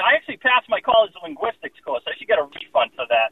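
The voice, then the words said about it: Boston accent, less thick now. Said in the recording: “you got to shed that miserable accent ... the accent isn't as thick as it used to be”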